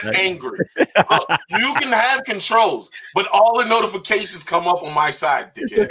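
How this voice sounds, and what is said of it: Yelling. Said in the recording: “I don't know why you're yelling.”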